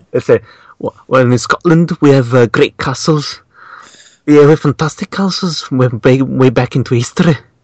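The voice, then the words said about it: Poor put-on Scottish accent. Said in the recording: “let me try to do a Scottish accent ... it was a rubbish Scottish accent. I had to improve it.”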